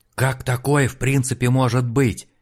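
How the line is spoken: Hoarse, losing his mind. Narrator (Russian): прохрипел Олег, на глазах теряя рассудок

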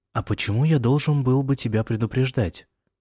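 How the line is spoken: Quiet question. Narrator (Russian): тихо спросил Джеймс

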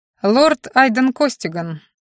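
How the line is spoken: Cold introduction. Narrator (Russian): холодно представился боевой маг

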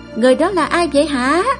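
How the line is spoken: Crowd shouting. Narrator (Vietnamese): Đám đông bên dưới sân khấu hò hét lên

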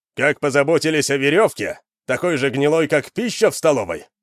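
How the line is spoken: Shouted. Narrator (Russian): выкрикнул Вандар

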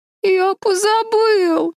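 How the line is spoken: Whimpering. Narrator (Russian): хныкал Дэви

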